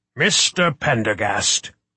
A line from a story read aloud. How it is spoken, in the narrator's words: he said, his voice booming